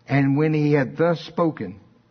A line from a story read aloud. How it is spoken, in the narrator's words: he cried with a loud voice